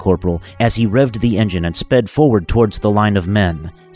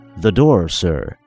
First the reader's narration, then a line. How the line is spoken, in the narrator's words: said Toph calmly